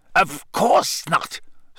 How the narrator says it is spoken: Snape snapped

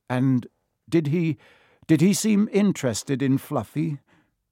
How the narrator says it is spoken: Harry asked, trying to keep his voice calm

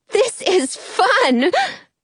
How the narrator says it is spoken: Penny says with a giggle

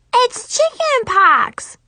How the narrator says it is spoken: Brianna yelled

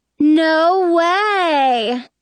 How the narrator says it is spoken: Cinderella drawls

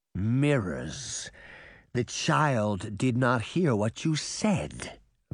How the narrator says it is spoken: Bunny said through clenched teeth

